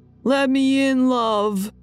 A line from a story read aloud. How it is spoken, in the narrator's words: yelling